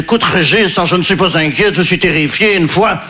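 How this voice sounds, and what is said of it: Put-on Belgian French accent. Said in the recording (French): “je prends l'accent belge parce que je ne sais pas faire l'accent ukrainien”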